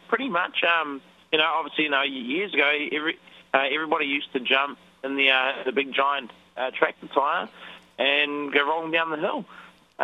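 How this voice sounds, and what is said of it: New Zealand accent. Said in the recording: “Zorb comes from New Zealand, which explains ... peculiar accent”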